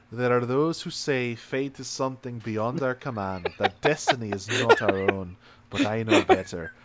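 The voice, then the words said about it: Put-on Scottish accent. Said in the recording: “my flawless Scottish accent ... That one was more trying to do a Scottish accent.”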